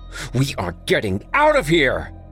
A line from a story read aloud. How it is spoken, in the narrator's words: Chadwick shouted